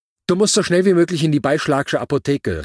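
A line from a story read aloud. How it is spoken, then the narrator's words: Calling. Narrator (German): rief sie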